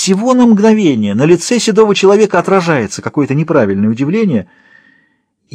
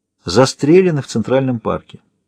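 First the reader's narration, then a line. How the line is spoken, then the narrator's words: Quiet. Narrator (Russian): говорит Ворд тихо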